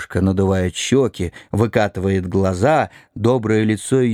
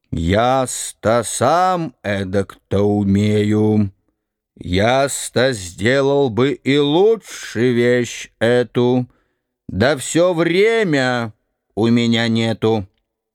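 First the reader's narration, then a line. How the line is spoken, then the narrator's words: Lazy heavy voice. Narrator (Russian): Она говорит ленивым, тяжелым голосом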